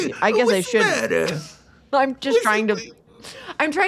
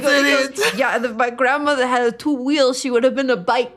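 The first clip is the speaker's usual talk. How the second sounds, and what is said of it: Put-on New York Italian accent. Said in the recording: “I'm allowed to do that accent ... I'm doing New York Italian here too ... I'm doing like New York Italian.”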